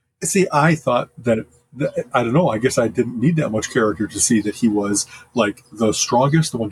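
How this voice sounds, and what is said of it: Usual voice. Nothing is said of it.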